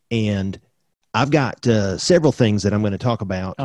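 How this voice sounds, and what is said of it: Put-on exaggerated country accent. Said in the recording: “Could you do this in your Jamie Vance Roseborough accent? It's a little country. ... That's actually pretty good. ... That might be a little too country on that line.”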